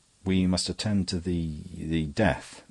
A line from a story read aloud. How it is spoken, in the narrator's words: his voice escaped from articulation